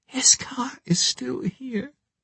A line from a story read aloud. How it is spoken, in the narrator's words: whispered